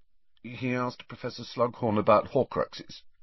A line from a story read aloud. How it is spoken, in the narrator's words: he mumbled shamefacedly